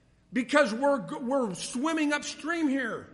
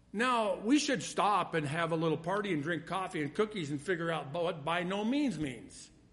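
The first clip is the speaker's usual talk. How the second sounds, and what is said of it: Sarcastic delivery. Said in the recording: “I'm being sarcastic.”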